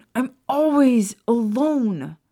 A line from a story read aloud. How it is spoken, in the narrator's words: Remus shouted